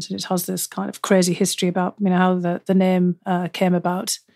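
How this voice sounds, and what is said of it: Northeast English regional accent. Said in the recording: “your accent to be lovely, bordering on enchanting ... the northeast of England, where I'm from, has some pretty distinct regional accents”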